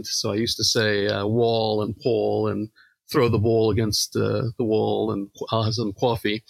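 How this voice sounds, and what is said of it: Exaggerated New York accent. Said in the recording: “they made fun of my New York accent”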